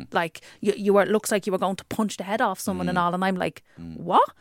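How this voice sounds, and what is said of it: Working-class accent. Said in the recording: “My working class accent comes in even stronger if I'm really passionate about something, and it gets louder”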